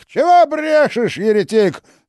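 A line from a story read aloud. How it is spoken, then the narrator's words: Angry yelling. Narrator (Russian): заорал Иоанн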